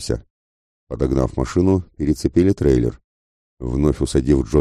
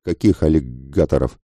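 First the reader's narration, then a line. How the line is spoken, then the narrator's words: Stuttering question. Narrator (Russian): спросил пленник, натурально начав заикаться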